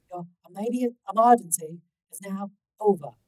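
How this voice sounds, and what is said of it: Cool female voice, Australian accent. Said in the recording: “a cool female voice with an Australian accent.”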